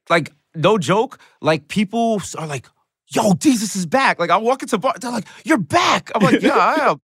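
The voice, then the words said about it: Bronx New York accent. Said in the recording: “I never heard an accent like that. I was like, this is a Bronx accent.”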